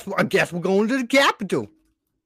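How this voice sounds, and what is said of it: Mock American southern accent. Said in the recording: “that's the one accent you can do without it being racially charged ... a southern accent, that's absolutely stupid”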